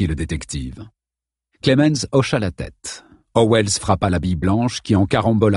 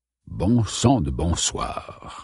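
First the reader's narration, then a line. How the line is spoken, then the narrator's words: Old man muttering. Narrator (French): marmonna l'ancien éditeur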